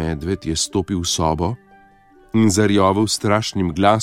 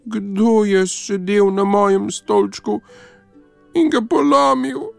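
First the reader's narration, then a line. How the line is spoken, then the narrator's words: Thin mouse-like squeak. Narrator (Slovenian): Miško pa je zacvilil tanko kot miš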